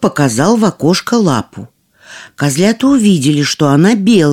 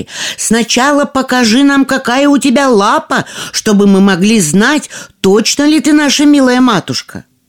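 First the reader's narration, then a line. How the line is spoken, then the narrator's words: Shouting young goats. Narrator (Russian): Козляточки закричали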